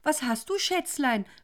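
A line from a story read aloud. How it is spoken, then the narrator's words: Startled cry. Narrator (German): rief Isolde erschrocken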